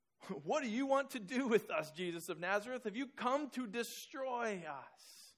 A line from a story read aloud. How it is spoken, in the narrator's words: Blurts out